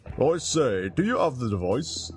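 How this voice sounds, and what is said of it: Comically huffy English accent. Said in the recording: “calls a third voice in a comically huffy English accent”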